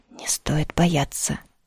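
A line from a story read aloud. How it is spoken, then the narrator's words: Very calm. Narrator (Russian): сказал как-то очень спокойно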